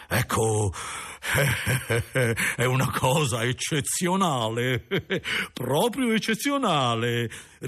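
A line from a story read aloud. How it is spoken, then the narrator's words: Calm laughing reply. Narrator (Italian): rispose l'imperturbabile signore ridendo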